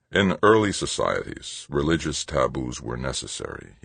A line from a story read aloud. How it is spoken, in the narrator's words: he said, so softly that Archbishop Overmeyer and the others unconsciously leaned toward him to hear